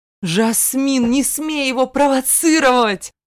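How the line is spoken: Growled. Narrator (Russian): зарычал Зейн

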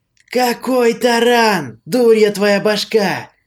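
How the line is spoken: Exasperated howl. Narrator (Russian): Он даже взвыл от бестолковости подчиненного

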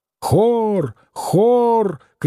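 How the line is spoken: Shouting. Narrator (Russian): кричал рыженький клоун

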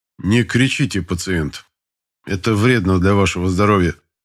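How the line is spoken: Cold reply, doctor. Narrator (Russian): холодно ответил врач

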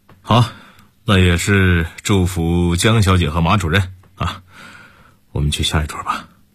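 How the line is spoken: Faint smile. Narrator (Chinese): 沈韵淡淡的一笑

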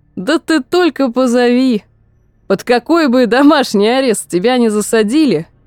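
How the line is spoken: Laughing. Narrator (Russian): Крис рассмеялся

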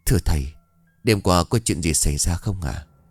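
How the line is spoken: Quiet voice. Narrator (Vietnamese): ông Hà bấy giờ nhỏ giọng

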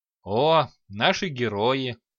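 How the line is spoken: Chuckle from above. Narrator (Russian): хохотнул с потолка Дварх

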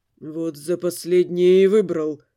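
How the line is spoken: Muttered through gritted teeth. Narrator (Russian): сквозь зубы пробормотал Дамиан

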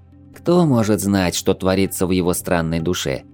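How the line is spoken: Sad sigh. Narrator (Russian): с грустью вздохнула хлорианка

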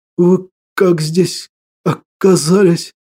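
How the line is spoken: Hoarse, shaking wheeze. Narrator (Russian): Просипел, меня продолжало колотить словно паралитика

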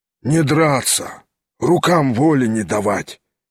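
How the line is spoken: Hoarse reply. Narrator (Russian): сипло отвечал помещик

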